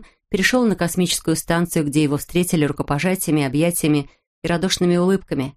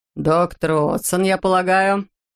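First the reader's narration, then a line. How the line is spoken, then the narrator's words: Deep bass voice. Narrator (Russian): пробасил Лютер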